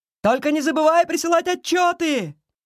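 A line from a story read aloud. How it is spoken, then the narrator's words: Shouting after someone. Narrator (Russian): прокричал Фейри ей вслед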